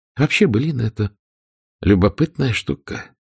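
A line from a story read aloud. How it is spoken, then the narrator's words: Sighing. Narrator (Russian): вздохнула Дагмар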